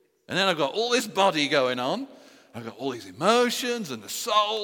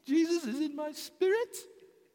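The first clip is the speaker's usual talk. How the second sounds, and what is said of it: Very high-pitched tiny voice. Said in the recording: “But he's tiny. Tiny, tiny. ... So use a very high voice.”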